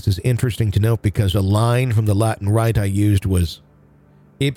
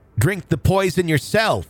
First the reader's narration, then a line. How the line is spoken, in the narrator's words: He heard Burley yell